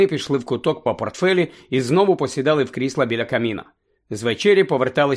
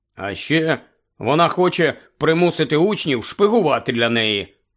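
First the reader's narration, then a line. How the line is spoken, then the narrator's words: Angry grumble. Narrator (Ukrainian): сердито буркнув Рон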